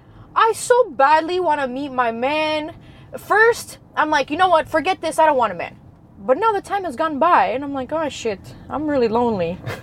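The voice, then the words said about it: Strong New York accent. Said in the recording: “If you had to like put into ChatGPT a New York accent, you would pop out. You have the most... ... It's just so unique.”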